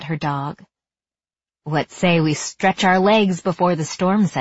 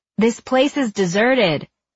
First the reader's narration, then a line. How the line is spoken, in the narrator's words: Ellie shouted over the wind